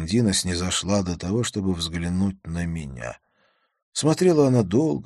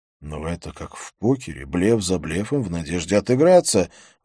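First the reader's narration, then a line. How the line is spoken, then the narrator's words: Exclamation. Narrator (Russian): воскликнул я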